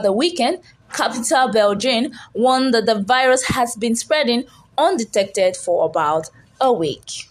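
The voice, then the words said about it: Reads news in a put-on accent. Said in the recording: “I had fun doing that anyway, so pardon my accent.”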